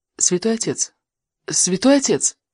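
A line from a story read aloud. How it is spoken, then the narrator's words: Quiet call. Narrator (Russian): Я тихонько позвал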